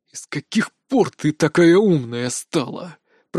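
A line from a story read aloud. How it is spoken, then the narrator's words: Barely restrained hiss. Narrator (Russian): прошипел Пак Богом, едва сдерживаясь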